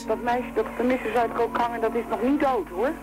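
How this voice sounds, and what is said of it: Northern Dutch Drents accent. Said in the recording (Dutch): “Ze lijkt zenuwachtig, is gehaast, kapt het af. ... Het is een noordelijk accent. ... klinkt Drents.”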